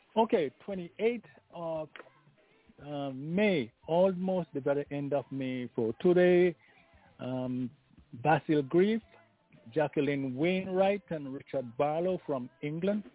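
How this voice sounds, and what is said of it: Slightly hoarse voice. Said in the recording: “I'm a little bit hoarse, but I think you can hear me.”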